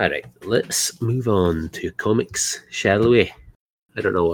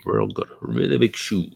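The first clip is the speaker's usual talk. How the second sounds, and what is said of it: Terrible put-on accent. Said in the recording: “I put on a uh. terrible accent.”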